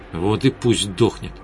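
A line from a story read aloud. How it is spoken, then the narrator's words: Muttered. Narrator (Russian): пробормотала Светлана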